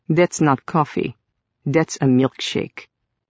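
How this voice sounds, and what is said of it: Pronounced Russian accent. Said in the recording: “his Russian accent a bit more pronounced”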